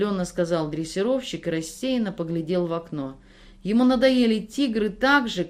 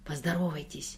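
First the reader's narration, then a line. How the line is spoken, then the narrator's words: Hurried whisper. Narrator (Russian): торопливым шепотом попросил дрессировщик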